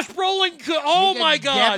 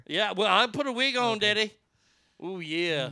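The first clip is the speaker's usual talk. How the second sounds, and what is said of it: Dusty Rhodes impression. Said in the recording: “Oh, Dusty Rhodes ... the accent, Daddy.”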